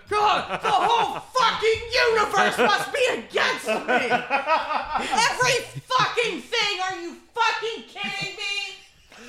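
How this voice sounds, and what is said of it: Imitates another person's angry yelling. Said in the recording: “That was a really good impression.”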